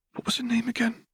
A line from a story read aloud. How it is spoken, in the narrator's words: asking in a careful whisper